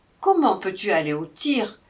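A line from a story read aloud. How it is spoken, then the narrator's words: Worried mother exclaiming. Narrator (French): s'écriait sa mère, qui ne faisait rien d'autre que de s'inquiéter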